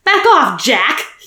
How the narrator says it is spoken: he snapped

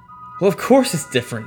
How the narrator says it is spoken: Eli laughed

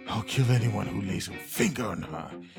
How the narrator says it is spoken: he muttered

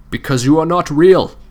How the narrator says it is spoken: he replied firmly

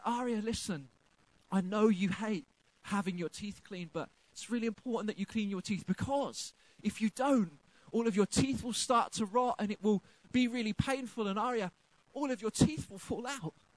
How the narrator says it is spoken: I very gently tried to explain to her

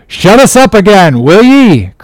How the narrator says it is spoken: cried Steelkilt

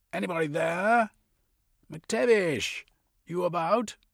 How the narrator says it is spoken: he called out

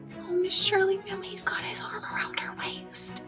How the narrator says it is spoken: whispered Charlotta the Fourth delightedly

